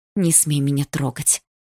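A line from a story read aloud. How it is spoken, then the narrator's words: Through clenched teeth. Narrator (Russian): процедила я сквозь зубы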